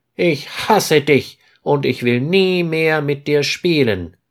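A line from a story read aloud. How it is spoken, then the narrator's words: Calling out. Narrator (German): ruft Peter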